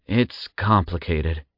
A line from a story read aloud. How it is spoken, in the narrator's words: Zack sighed